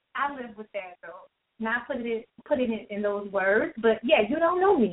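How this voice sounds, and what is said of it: Southern American accent. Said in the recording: “this little Southern accent”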